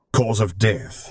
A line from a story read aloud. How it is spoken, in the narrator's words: he asked curtly